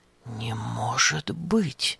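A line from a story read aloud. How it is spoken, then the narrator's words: Puzzled whisper. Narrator (Russian): озадаченно прошептал Епафраз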